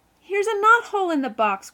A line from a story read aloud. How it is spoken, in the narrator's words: groaned Phil